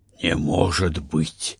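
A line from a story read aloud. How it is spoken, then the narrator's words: Hoarse wheeze. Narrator (Russian): почему-то прохрипел Гард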